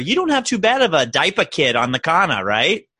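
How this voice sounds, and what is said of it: Put-on Massachusetts New England accent. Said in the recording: “That accent was perfect... That was really good. Really, really good... the New England, like, Mass whole theme”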